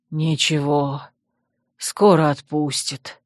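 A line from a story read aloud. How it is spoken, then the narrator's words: Tired sigh. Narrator (Russian): устало выдохнул владыка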